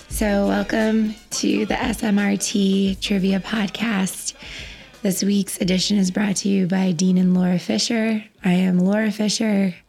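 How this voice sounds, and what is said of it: Slightly hoarse voice. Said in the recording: “accompanied by a sore throat. I'm a little hoarse.”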